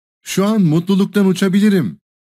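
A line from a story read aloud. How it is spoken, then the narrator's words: Joyful exclamation. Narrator (Turkish): diye neşeyle haykırdı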